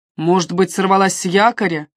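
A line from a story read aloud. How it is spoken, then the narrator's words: Snort. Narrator (Russian): Не изменившись в лице, Джаспер хмыкнул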